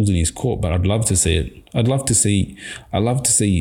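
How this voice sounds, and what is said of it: Usual voice. Nothing is said of it.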